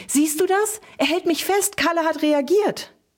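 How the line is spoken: Called out. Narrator (German): rief sie

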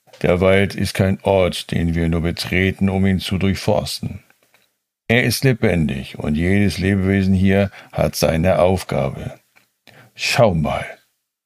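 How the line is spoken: Calm. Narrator (German): begann Micha ruhig

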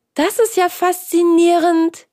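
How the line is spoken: Exclaimed. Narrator (German): rief Hans

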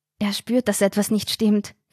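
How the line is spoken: Whispered. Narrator (German): flüsterte Carina

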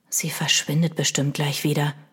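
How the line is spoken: Whisper. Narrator (German): flüsterte Milo

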